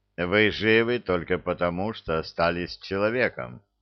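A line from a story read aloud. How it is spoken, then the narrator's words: Cold, commanding voice. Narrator (Russian): холодно сказал император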